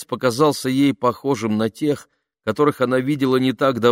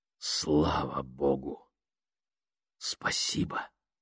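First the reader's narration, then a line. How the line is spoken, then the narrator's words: Whisper. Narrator (Russian): прошептал Леон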